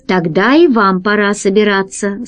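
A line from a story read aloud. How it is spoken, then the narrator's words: Plain. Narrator (Russian): сказал Гайдо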